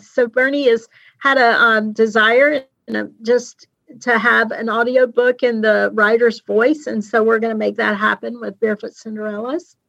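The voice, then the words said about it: Southern American accent. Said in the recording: “we'll use my voice, so you'll get it with ... A Southern accent.”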